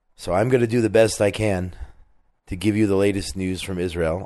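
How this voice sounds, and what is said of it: Hoarse, strained, partly lost voice. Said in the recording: “I lost my voice over the weekend ... I apologize in advance if I am not completely clear with my words, or if I stumble on some words, or if I'm coughing”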